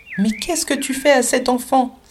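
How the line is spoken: Exclaiming. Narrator (French): s'écria-t-elle

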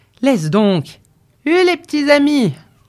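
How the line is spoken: Shouted to horses. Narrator (French): cria-t-il à ses chevaux

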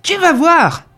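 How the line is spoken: Yelling. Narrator (French): hurla-t-il

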